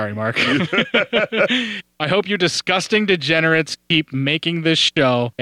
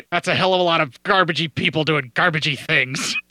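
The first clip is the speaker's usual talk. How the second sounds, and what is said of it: Imitates another person's voice. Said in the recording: “I wish I could do a Mark impersonation. ... I totally heard that in Mark's voice. ... That's the closest Mark I got. ... That's not all that good either.”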